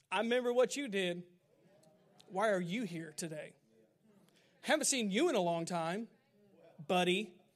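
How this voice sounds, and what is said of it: Impersonates a religious person. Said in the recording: “that was a good impersonation of a religious person.”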